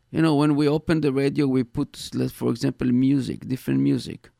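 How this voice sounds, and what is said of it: Heavy accent. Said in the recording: “my accent, my heavy accent”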